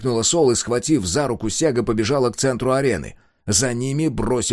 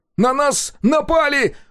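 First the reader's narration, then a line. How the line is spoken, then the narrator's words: Yelled. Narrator (Russian): завопил Коленки, растерянно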